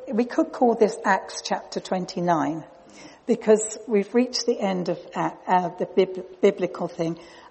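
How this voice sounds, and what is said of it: Strained, unwell-sounding voice. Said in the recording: “I'm sorry for my voice. ... This is the first time I've spoken like this since I've been ill.”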